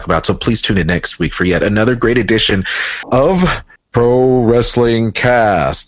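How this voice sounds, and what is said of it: Announcer voice. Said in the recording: “There's my announcer voice.”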